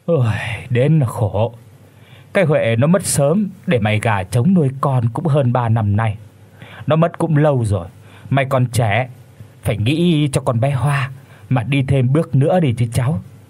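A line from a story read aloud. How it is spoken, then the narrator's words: Old woman, sighing. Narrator (Vietnamese): Bà Ngân thở dài rồi nói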